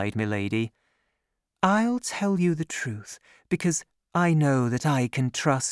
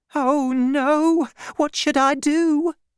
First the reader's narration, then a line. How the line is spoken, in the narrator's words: cried Madame Bonacieux